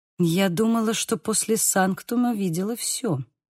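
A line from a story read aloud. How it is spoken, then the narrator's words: Muttered. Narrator (Russian): пробормотала Лиз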